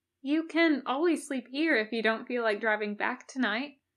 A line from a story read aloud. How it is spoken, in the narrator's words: offered kindly